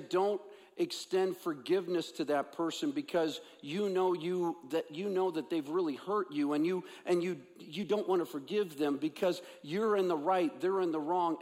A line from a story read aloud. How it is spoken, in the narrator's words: God says